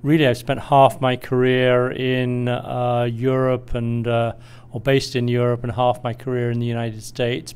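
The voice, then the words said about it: British English accent. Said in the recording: “I'm originally British, as you might tell from my accent”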